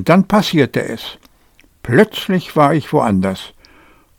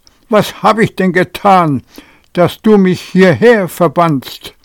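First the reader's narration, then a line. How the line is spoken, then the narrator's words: Shouted. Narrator (German): rief ich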